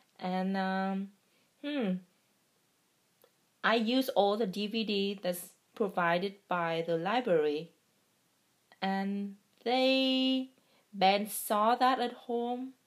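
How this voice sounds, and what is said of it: Non-native English accent. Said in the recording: “my accent is terrible. I cannot have the American accent”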